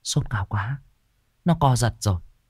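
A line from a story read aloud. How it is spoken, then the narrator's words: Muttering. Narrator (Vietnamese): lẩm bẩm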